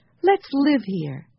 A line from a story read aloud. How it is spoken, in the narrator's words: cried Jessie